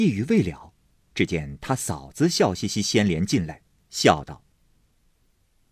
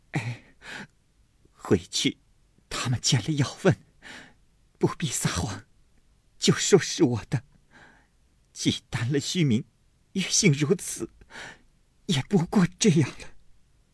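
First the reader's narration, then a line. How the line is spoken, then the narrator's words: Crying. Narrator (Chinese): 晴雯又哭道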